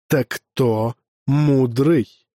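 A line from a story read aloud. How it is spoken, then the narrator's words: Mocking sigh. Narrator (Russian): насмешливо вздохнул долг кшатрия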